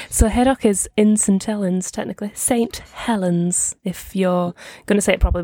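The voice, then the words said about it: Distinctive Northern English accent. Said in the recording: “that accent. ... it's very distinctive and I love the accent.”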